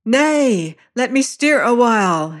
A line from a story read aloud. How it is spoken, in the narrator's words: she cried